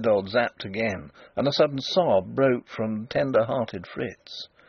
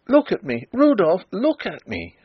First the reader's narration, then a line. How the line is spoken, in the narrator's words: cried